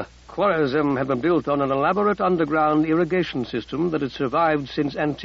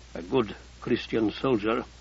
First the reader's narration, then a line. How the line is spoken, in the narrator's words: Abdi Qadir murmured